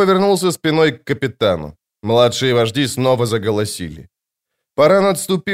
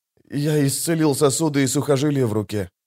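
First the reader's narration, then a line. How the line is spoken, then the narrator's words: Quiet. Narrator (Russian): тихо сказал он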